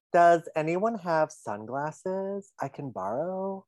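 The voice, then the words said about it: Imitates another person's voice. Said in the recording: “my Kelly impersonation, and I think it's really coming along... It's getting there... It's giving Kelly.”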